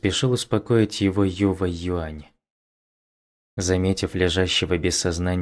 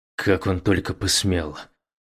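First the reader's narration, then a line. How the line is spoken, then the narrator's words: Breathed out. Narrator (Russian): Юва Юань выдохнул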